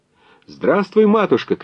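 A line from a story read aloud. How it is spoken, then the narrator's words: Young man's shout. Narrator (Russian): крикнул юнош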